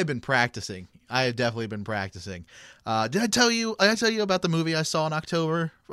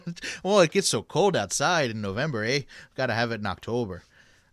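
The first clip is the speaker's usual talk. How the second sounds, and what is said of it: Good put-on Canadian accent. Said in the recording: “That was a good Canadian accent.”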